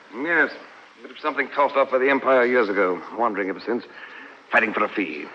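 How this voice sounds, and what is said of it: English accent. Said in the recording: “my accent ... You're English?”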